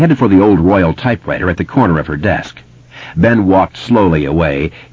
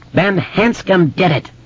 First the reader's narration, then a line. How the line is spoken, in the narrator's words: the voice screamed